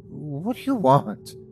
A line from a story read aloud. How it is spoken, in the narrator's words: I stuttered back